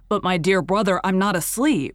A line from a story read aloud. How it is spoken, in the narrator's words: Raoul protested impatiently